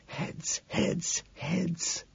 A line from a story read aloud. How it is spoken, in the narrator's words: I hiss, praying